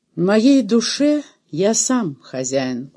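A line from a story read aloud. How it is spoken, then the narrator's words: Gloomy, nearly normal voice. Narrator (Russian): угрюмо сказал почти уже обычным голосом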